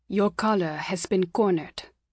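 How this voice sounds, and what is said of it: Rumbling voice, thick accent. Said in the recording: “he rumbled in a thick accent.”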